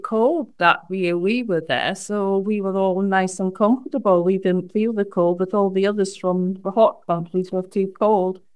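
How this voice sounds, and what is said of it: Scottish accent. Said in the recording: “as you can tell by my accent, I was actually born in Scotland.”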